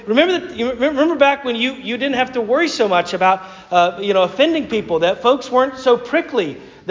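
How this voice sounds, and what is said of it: Southern American accent. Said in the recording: “with a southern accent”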